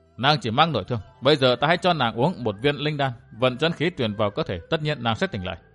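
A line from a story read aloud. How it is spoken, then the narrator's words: Muttering. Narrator (Vietnamese): Gã lẩm bẩm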